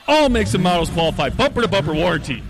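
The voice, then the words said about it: Big booming announcer radio voice. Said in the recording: “big radio voice... You need it when talking about a big deal.”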